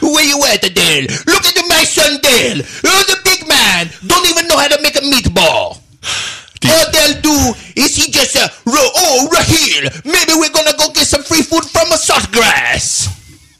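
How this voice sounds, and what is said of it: Put-on Italian accent. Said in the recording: “How about Italian? ... That's if Dale's dad was Italian.”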